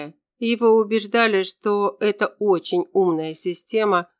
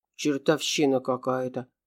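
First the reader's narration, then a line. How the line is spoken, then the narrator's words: Guard muttering under breath. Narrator (Russian): пробормотал охранник себе под нос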